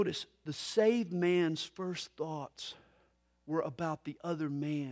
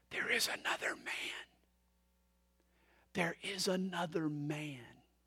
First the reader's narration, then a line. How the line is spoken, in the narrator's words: They heard him whisper